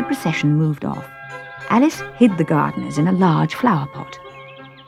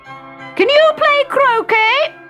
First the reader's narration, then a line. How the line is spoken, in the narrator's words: shouted the queen